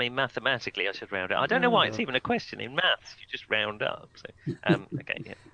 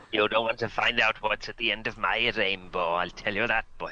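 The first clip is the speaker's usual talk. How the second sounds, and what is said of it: Put-on Welsh accent, leprechaun character. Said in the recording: “A Welsh leprechaun ... He's very Welsh and very cruel ... that accent”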